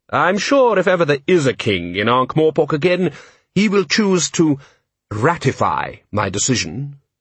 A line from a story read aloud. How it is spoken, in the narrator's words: said Vetinari smoothly